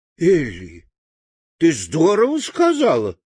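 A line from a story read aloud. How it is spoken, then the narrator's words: Exclamation. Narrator (Russian): воскликнул Страшила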